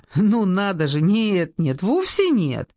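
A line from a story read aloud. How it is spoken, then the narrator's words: Nervous relieved laugh. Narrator (Russian): Я нервно рассмеялась от облегчения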